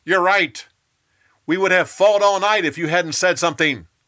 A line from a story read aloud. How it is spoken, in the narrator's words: Joab yelled back